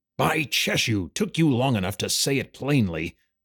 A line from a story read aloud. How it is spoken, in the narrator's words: the hunter growled